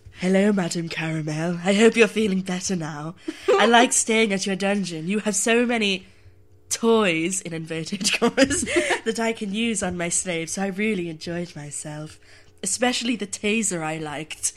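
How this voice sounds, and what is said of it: Low sexy voice, attempted Dutch. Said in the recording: “I'm going to do it in a nice, low, sexy voice ... It has to be slightly Dutch ... I can't do Dutch accents”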